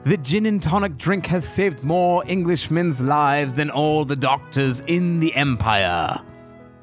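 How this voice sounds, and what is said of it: Poor Winston Churchill impression. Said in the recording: “Winston Churchill once said ... I'm awful at accents.”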